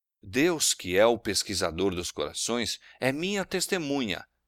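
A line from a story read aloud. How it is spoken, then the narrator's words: Plain. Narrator (Portuguese): disse ele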